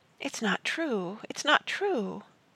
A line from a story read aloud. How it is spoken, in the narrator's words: She said softly, desperately